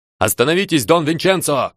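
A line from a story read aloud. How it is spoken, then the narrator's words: Breathless shout. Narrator (Russian): крикнул я, задыхаясь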